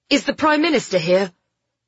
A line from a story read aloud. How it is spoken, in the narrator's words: Ben snapped out the words